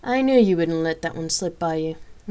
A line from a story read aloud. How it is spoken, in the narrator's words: Rain laughed and added